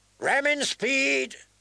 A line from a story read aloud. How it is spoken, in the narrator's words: Davos shouted